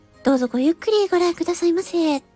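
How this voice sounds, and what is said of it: Bright shop clerk's greeting voice. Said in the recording (Japanese): “アパレルの店員さんの声とかモノマネとかもたまにやるんですけど ... 明るいし”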